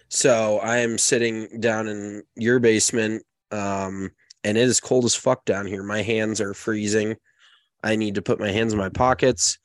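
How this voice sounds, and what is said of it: Raspy, stuffy congested voice. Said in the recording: “you can probably tell by my voice, it's maybe a little raspy and a little stuffy”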